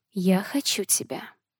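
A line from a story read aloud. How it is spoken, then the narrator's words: Tender, frank whisper. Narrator (Russian): шепнула ласково, очень откровенно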